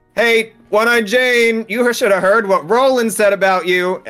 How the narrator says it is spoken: I'll just sort of shout

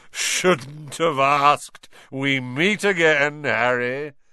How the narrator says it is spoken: Lockhart thundered jovially

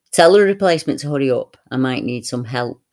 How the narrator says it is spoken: said

